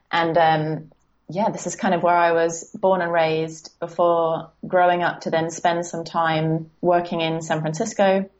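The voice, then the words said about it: British accent. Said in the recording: “from my accent, you might be able to tell that I'm from the UK”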